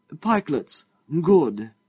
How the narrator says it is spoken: he exclaimed

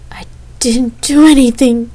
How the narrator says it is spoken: he shouted

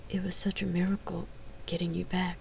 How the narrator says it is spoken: the warrior whispered

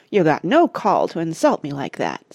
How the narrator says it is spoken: said Ethelred sulkily

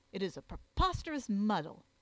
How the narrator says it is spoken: exclaimed Jervis

